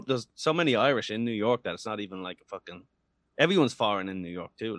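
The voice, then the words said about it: Irish brogue accent. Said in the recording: “your accent ... this accent ... This brogue?”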